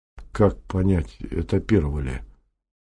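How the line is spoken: Quiet question. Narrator (Russian): Сергей Дежков тихо спросил

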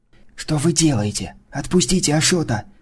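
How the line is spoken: Whispering. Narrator (Russian): шепотом загласила подруга Сташева

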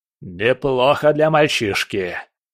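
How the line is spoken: General growled. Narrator (Russian): прорычал генерал

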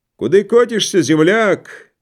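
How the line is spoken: Shouting from a distance. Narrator (Russian): кричал ему Коротков с первой телеги

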